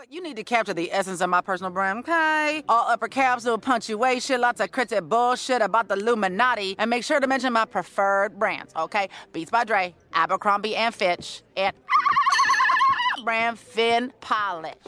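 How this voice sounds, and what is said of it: Sextina Aquafina character voice. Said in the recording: “one of her favorite characters is Sextina Aquafina, a dolphin pop star ... does the voice.”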